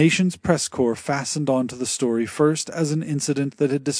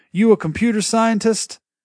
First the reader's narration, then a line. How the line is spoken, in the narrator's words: called out